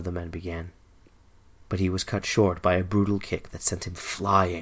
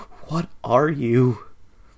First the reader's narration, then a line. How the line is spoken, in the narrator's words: the terrified man whimpered